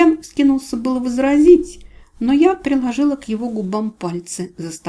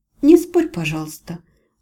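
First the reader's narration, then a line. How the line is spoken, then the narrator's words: Gentle, affectionate request. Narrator (Russian): ласково попросила я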